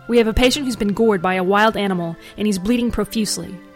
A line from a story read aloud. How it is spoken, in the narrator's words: snapped Ryla matter-of-factly